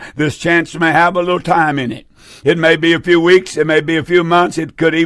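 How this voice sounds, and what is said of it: Usual voice. Nothing is said of it.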